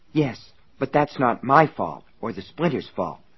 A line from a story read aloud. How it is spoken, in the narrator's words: Sally muttered